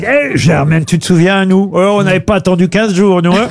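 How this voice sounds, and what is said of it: Imitates another person's voice. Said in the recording (French): “l'imitation de Laurent”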